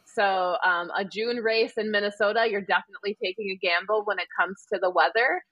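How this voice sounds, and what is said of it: Wisconsin accent. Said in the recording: “as I say that with my Wisconsin accent”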